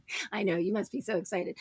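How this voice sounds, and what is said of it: Sarcastic delivery. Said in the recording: “I'm saying that sarcastically.”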